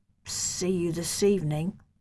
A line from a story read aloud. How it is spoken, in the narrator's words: I murmured